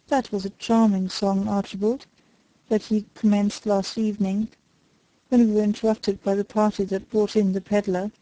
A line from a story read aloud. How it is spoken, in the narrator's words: he said